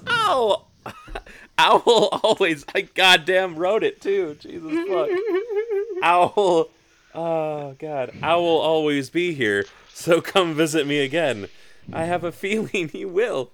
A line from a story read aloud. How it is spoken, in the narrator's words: She laughs at her own stupid joke and says